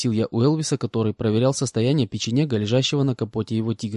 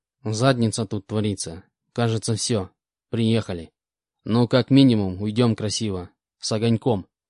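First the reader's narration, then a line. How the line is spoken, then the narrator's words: Calm. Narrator (Russian): спокойно ответил мой инструктор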